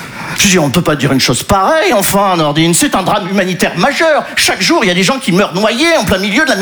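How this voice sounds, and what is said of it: Usual voice. Nothing is said of it.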